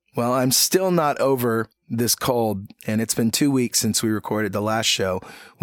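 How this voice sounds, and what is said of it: Froggy, hoarse voice. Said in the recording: “my voice sounds a little froggy ... I was a little froggy then”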